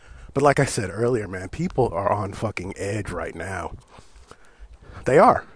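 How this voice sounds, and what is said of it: Usual voice. Nothing is said of it.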